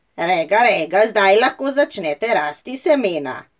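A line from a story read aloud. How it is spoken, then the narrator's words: Very loud speech. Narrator (Slovenian): Regica rekla zelo glasno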